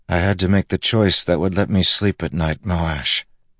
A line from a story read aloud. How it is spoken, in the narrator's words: Kaladin said wearily